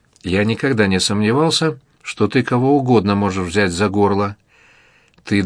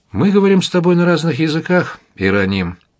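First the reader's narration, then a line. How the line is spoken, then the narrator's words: Sighing. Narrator (Russian): вздохнул Марк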